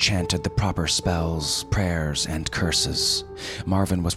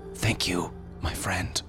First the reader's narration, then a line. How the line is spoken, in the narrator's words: whispered Marvin as the life drained away